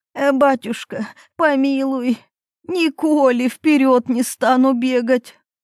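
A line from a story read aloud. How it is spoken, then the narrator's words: Old woman pleading. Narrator (Russian): Взмолилась старуха старику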